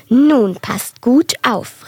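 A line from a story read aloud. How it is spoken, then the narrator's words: Called out. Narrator (German): rief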